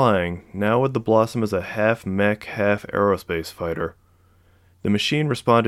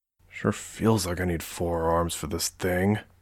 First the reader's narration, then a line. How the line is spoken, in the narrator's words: Murray muttered